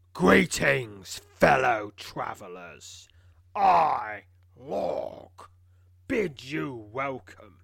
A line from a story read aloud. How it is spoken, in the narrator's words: In a deep, booming voice, calls out